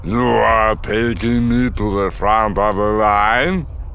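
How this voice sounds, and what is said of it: Rumbling voice, thick accent. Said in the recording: “in his rumbling Basic ... his thick accent”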